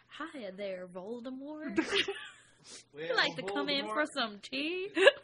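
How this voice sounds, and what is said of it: Put-on Southern Belle accent. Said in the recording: “would make an awful Southern Belle... his Southern Belle charms... I can smell your bullshit accent from here”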